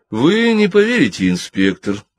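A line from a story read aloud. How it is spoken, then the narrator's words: Calm reply. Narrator (Russian): спокойно ответила Джин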